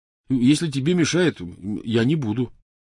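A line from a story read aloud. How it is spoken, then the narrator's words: Hurried reassurance. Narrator (Russian): торопливо заверил он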